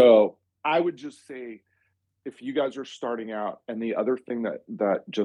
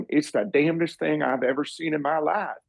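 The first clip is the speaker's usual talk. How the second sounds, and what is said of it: Texas accent impression. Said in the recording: “he's got this Texas accent round.”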